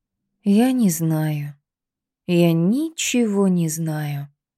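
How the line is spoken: Indifferent breathy. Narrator (Russian): выдохнула Лида равнодушно

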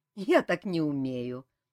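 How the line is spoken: Laughing nymph. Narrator (Russian): засмеялась нимфа

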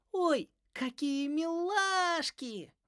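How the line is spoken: Squealing girl. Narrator (Russian): взвизгнула девочка

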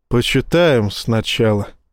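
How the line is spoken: Sighing. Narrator (Russian): вздохнул Рашин

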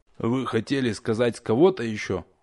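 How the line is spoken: Gloomy remark. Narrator (Russian): мрачно заметил мастер Рух

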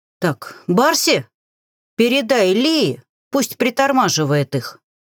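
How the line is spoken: Shouted. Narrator (Russian): крикнула Зеленый

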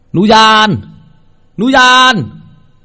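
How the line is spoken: Shouting for help. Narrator (Vietnamese): Ông la lên, chắc là ông gọi người đến giúp

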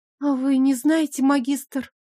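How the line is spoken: Trembling question. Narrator (Russian): дрожащим голосом спросил Сворский

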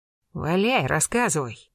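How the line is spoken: Gruff grumble. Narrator (Russian): буркнул молчавший доселе Арсений Блистанов

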